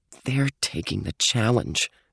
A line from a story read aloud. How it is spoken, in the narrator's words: she muttered